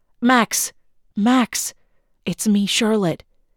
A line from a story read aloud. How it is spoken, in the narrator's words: she said softly into her brother's ear